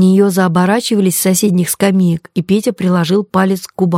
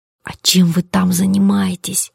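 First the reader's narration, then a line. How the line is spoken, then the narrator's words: Curious whisper. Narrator (Russian): перешла на шепот умирающая от любопытства Коломбина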